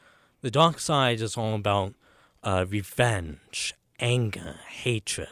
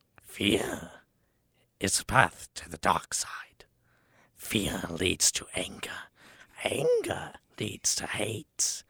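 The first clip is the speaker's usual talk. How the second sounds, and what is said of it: Poor Yoda impression, Joker-like. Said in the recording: “my Yoda impression is horrible ... You sound like a Joker trying to be Yoda.”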